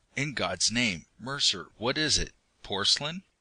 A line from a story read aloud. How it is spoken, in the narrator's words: I asked hoarsely